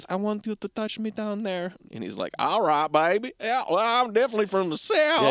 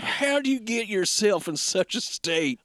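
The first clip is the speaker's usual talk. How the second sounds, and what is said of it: Exaggerated Southern US accent. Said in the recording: “he has a pretty terrible accent ... I think you are exaggerating the southern part of it”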